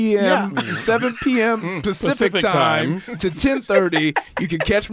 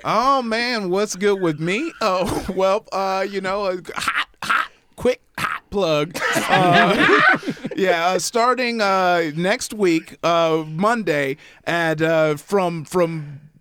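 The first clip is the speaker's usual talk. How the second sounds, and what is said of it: Stuttering, halting speech. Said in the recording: “you could tell how well I know this because I'm stuttering”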